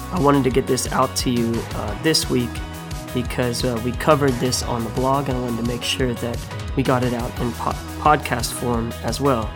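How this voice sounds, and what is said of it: Hoarse, recovering voice. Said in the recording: “apologize for my voice today. I'm getting over having lost it earlier in the week due to some sinuses”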